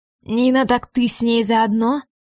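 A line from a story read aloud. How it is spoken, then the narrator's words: Hoarse question. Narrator (Russian): хрипло спрашивает мужчина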